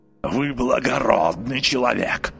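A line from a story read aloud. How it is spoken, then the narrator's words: Hoarse croak. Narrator (Russian): прохрипел нотариус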